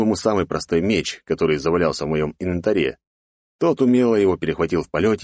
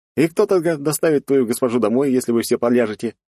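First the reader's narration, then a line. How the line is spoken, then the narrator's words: Snide question. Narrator (Russian): ехидно спросил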